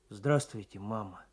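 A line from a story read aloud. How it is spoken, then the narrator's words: Suddenly hoarse voice. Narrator (Russian): Николай сказал вдруг осипшим голосом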